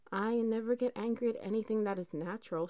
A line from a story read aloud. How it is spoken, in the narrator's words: replied